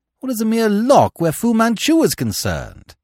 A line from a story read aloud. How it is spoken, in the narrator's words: Nayland Smith laughed almost gaily